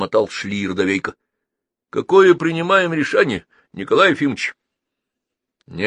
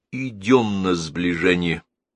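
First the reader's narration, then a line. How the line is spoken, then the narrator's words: Quiet. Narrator (Russian): тихо сказал Рикошетников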